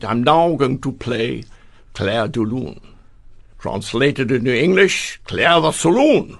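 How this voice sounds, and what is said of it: Victor Borge impression, Danish accent. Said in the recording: “Clair de Lune with his Danish accent ... Very good imitation of his voice.”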